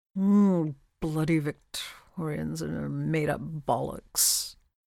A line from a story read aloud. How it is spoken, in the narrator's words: Crowley grumbles